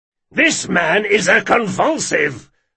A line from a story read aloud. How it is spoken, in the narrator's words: Jean bellowed